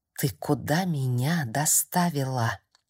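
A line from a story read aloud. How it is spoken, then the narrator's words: Strangled whisper. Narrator (Russian): сдавленно прошептала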